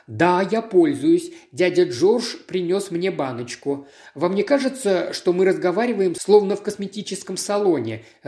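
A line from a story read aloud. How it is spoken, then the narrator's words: Sudden laughter. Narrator (Russian): рассмеялся вдруг Хью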